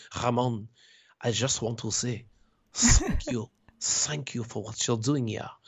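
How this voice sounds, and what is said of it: Poorly imitated French accent. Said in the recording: “in his French accent, I'm going to try to mimic him, which is a bad accent ... And it was a bad accent.”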